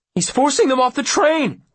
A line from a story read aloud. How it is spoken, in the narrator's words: Will gasps